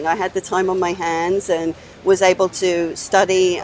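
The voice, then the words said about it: Slight English accent. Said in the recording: “I hear a little bit of an accent... I'm originally from England”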